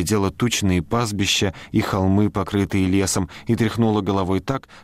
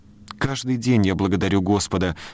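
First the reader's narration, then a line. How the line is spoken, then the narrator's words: Plain. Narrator (Russian): сказала миссис Коуп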